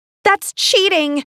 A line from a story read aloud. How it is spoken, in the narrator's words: shouted